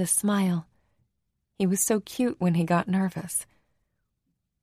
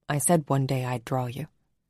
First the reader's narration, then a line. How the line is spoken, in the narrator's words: said quietly